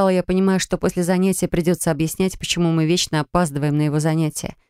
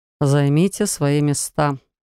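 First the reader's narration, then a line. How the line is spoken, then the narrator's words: Sighing man. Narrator (Russian): вздохнул мужчина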